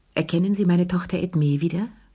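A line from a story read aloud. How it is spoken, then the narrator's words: Plain. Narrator (German): fragte sie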